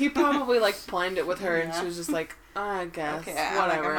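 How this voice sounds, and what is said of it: Usual voice. Nothing is said of it.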